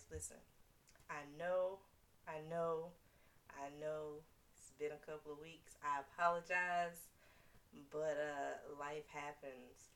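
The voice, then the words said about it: Deepened voice from illness. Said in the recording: “I am getting over the vid, allegedly. So if I cough here and there, I apologize. If I sound like a man at any point in time, I apologize.”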